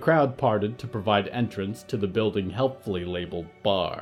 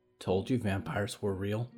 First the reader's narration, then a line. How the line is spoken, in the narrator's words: she whispered to Olivier